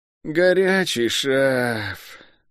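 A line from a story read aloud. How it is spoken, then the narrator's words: Melancholy drawl, guard. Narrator (Russian): тоскливо протянул стражник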